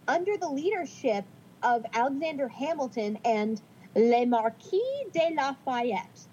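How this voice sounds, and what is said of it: Put-on French accent. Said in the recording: “That's my French accent for you.”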